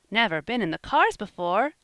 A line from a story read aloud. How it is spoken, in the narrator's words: exclaimed Van